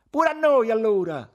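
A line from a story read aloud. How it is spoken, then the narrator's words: Group shouting. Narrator (Italian): gridarono gli altri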